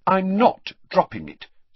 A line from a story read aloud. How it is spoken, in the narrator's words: said Hermione firmly